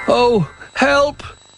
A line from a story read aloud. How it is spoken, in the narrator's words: cried Little Bear